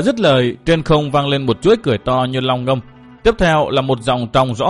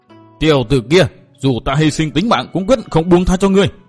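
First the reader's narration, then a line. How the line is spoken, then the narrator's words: Angry loud shout. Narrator (Vietnamese): Ngân Cơ nghe lòng đau thắt, giận dữ quát to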